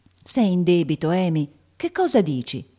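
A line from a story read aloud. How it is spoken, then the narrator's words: Serious exclamation. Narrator (Italian): esclamò Meg seriamente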